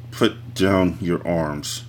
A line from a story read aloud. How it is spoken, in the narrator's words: said through gritted teeth